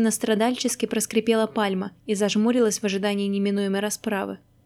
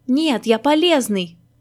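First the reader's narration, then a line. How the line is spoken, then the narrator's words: Insistent shout. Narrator (Russian): закричал Маськин настойчиво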